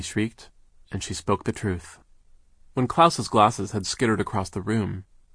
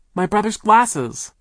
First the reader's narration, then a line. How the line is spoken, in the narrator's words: Violet cried